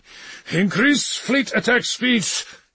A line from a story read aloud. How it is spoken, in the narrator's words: he thundered